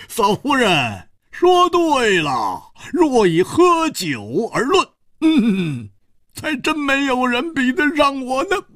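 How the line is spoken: Roaring with laughter. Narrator (Chinese): 蝴蝶花哈哈大笑说

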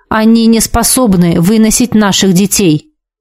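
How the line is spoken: Sharp. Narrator (Russian): произнес он резко

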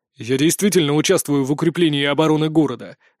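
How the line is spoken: Angry. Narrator (Russian): выдал Олаф зло

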